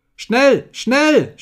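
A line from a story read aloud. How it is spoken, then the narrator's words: Shouted. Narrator (German): schrie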